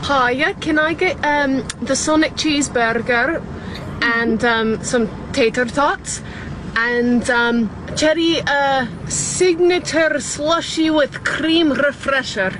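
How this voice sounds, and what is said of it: Scottish accent. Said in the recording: “She's from Scotland. ... Wow, that's an accent.”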